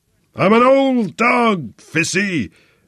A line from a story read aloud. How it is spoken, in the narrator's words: bellowed from the lower deck